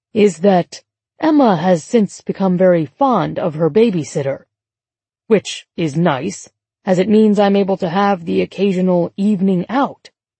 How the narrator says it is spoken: James said in a jauntier tone

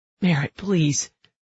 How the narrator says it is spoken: he says, his voice desperate

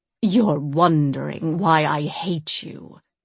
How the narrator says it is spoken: Euphraxia rasped

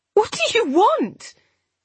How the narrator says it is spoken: I interrupted desperately

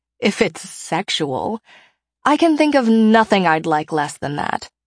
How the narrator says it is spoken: I do snort

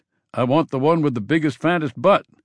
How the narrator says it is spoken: Ben shouted to no one in particular

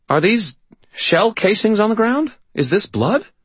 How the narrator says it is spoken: sputtered a little man in pale blue hospital scrubs in a black denim jacket

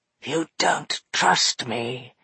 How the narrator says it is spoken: said hoarsely

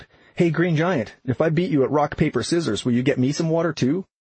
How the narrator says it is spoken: Bad Dinner called out

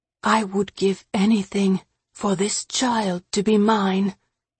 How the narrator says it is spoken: he whispered

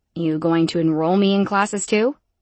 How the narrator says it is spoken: I asked Sirit, my tone dry and slightly annoyed

